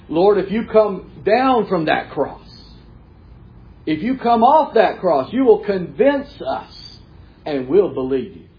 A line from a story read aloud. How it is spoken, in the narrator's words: mocking